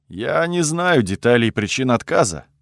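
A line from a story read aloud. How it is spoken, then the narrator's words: Gloomy sigh. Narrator (Russian): добавил Луин, мрачно вздохнув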